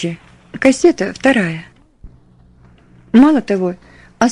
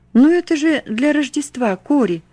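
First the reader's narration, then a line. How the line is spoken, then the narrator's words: Pleading. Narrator (Russian): взмолилась она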